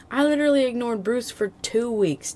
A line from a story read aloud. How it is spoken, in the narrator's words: Dick whined